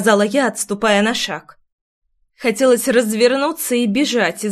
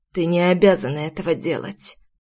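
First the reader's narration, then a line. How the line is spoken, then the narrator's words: Muffled father's voice. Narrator (Russian): глухо ответил отец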